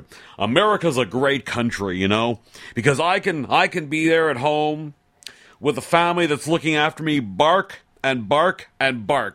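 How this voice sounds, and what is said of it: Put-on American accent. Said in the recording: “I'll do it with the accent to make it sound better.”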